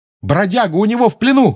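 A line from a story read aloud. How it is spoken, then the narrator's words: Shout. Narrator (Russian): крикнул он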